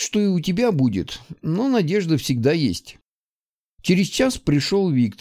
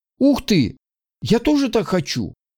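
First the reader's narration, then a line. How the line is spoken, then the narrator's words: Exclaimed. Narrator (Russian): воскликнул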